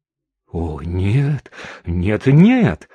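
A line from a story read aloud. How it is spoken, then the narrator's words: Frightened exclamation. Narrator (Russian): испуганно воскликнул кучер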